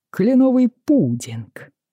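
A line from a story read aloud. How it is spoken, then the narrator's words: Cheerful announcement. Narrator (Russian): объявил он радостно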